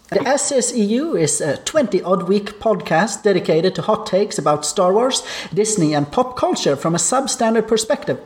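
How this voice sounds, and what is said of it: Speaks with a noticeable accent. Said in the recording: “your host with an accent”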